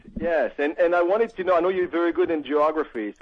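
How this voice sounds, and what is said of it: Italian accent in English. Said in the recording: “Where is this accent from? Because that's not from Virginia ... I'm Italian.”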